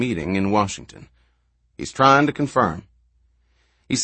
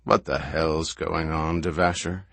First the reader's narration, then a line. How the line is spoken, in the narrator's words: He asked softly